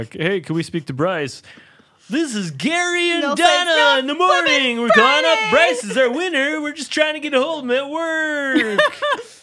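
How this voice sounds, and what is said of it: Fake radio DJ voice. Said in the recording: “You have a good radio voice. ... It's fake.”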